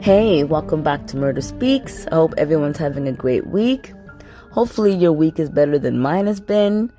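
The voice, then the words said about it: Voice sounds sick. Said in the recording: “as you can tell by my voice, I'm sick.”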